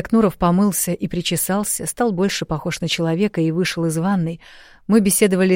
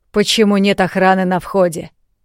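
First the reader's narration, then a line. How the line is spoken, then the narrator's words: Stern question. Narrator (Russian): строго спросил Измайлов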